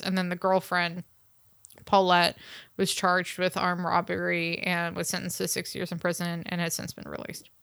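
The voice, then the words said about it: Tired, sleepy-sounding voice. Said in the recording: “if the listeners can tell by my tone of voice, I could barely stay awake during this entire episode”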